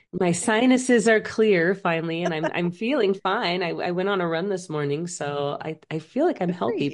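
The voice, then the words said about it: Voice not fully recovered, wheezy. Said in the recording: “we both have a little bit of a cold, so excuse us as we wheeze our way... I have this cough that like won't leave, and I'm sure you can tell my voice is not totally back”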